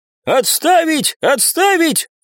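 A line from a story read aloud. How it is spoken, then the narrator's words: Shouting. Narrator (Russian): закричал вбежавший в помещение куратор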